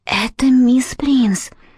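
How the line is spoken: Whisper. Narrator (Russian): шепнула она

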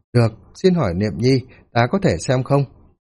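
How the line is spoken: Smiling. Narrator (Vietnamese): Hàm Cửu Di mỉm cười

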